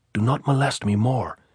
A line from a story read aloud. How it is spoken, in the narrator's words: Pilar whispered angrily